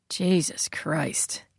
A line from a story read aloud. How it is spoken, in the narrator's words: Kepler muttered